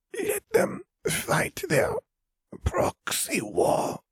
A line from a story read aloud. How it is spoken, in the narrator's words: Vare rasped